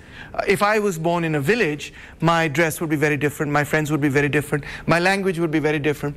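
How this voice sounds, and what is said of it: Fluent English, slight Punjabi accent. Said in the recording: “relatively fluent English, if not a slightly Punjabi-fied English accent”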